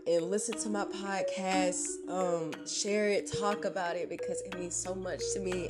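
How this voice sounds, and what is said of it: Slightly strained, hoarse-sounding voice. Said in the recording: “my voice might sound a little bit different. I'm pretty sure in a couple of days I will probably be losing my voice”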